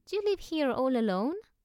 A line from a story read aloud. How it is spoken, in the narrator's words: Annika said anxiously